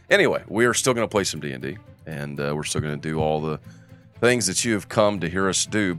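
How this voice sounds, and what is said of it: Deep, congested voice. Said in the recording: “they call me ... I have a bit of some allergies ... it's attacking my allergies”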